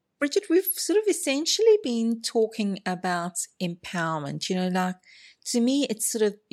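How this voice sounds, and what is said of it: Non-Australian accent. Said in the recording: “the way I pronunciate certain things ... my accent's okay ... I absolutely love your accent”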